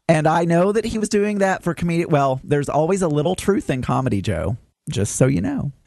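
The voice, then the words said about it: Southern American accent. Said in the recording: “I have a Southern accent and I live in Arkansas”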